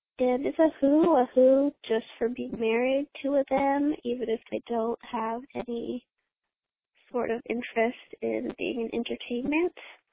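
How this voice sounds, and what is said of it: Congested voice from a cold. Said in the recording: “I have a cold right now, that's why I sound like this.”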